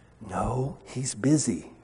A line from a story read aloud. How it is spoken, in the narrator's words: whispered the child